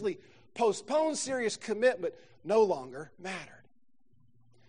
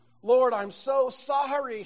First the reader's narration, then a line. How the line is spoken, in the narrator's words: cried, realizing he'd soon face the eternal consequences of his earthly life